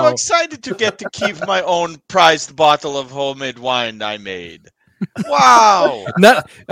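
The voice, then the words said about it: Put-on Danish accent. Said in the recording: “none of us know what a Danish accent sounds like. We're just gonna be different every time we do it”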